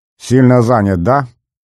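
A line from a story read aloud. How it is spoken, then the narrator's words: Snapping retort. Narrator (Russian): огрызнулся узбек Багдыров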